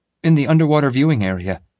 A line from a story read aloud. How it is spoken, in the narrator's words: gasped